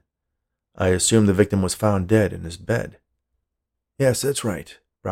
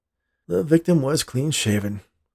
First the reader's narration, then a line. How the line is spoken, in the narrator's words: the policeman said with a sigh